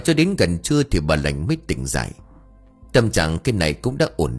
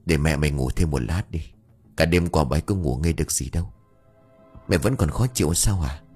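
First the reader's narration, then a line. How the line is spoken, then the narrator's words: Soft, quiet. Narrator (Vietnamese): Ông Huy khẽ nói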